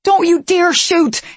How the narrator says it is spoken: He yelled

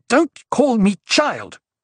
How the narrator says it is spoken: she snapped

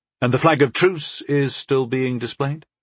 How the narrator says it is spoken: I asked

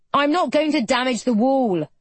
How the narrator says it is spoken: Toby shouts back, as though highly offended

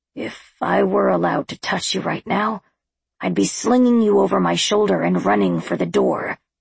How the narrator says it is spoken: he growled

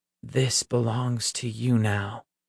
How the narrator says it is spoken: Peter said in a hushed, reverent tone

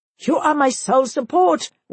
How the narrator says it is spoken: wailed the major

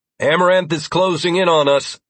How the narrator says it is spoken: I called out to the group, not wanting to startle anyone

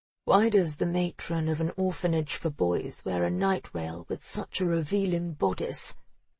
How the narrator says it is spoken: he said, his voice gravelly

